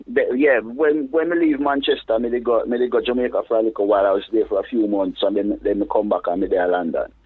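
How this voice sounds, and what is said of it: Mixed British and Jamaican accent. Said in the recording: “The accent thing, people them talk different ... in between leaving Manchester and reaching to London, yeah, me just spend a little time in Jamaica, so the whole of my accent get completely mashed up”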